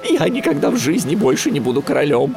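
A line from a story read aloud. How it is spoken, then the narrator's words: Frightened reply. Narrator (Russian): испуганно ответил тот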